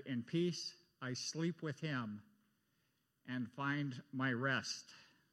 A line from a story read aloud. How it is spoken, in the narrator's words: Augustine's mother, Monica, was passing away, she quietly said